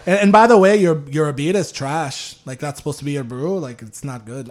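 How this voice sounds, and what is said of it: Poor put-on Irish accent. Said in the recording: “my Irish accent's terrible”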